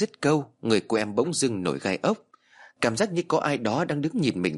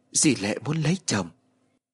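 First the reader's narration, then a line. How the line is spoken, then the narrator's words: Whisper. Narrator (Vietnamese): Em thì thầm nói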